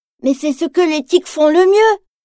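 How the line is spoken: Sad reply. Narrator (French): répond Tigrou tristement

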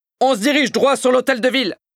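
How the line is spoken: Shouting. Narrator (French): crie Monsieur Indestructible

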